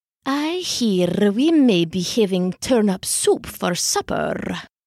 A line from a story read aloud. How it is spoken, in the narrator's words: she purred